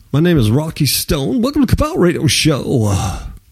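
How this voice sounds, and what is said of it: Put-on radio DJ voice. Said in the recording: “I got my DJ voice on.”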